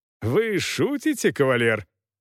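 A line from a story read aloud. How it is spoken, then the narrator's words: Laughing. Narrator (Russian): Гаэтан Бертье засмеялся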